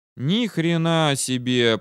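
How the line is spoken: Drawn-out. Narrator (Russian): протянул Валера

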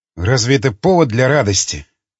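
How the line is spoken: Hoarse grumble. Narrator (Russian): хрипло проворчал, наконец, Константин

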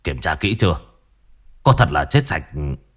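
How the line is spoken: Harsh, stressed voice. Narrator (Vietnamese): Ông gằn giọng

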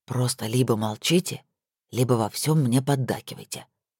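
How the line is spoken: Whispered reply. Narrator (Russian): также шепотом ответил Эмер

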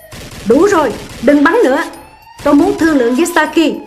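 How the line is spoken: Shouted. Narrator (Vietnamese): Tôi hét lên

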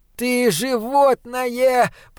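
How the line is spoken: Hoarse wheeze, two voices. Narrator (Russian): прохрипел Унах и Клосп

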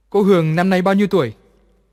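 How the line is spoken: Domineering boss's voice. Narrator (Vietnamese): Anh ta cất giọng đúng của một ông chủ hét ra lửa của Bành gia

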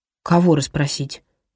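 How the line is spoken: Sighing. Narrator (Russian): вздохнул Грегори

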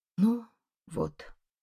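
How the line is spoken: Dejected, sinking voice. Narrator (Russian): говорит упавшим голосом

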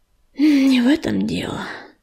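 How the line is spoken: Sighing. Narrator (Russian): вздохнул он

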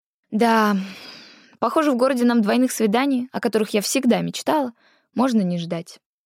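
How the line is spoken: Sighing. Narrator (Russian): вздохнула

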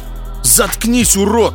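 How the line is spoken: Shouting. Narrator (Russian): Закричал Илларионов

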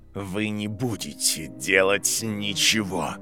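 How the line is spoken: Hiss. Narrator (Russian): прошипел декан их факультета

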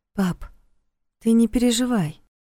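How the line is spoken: Soft plea, forcing a smile. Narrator (Russian): мягко попросила, стараясь улыбнуться

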